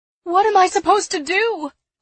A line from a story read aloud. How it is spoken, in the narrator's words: I cried to people rushing by